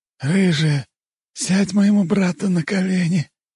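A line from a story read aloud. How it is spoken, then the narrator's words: Hoarse rasp. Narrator (Russian): прохрипел Огнев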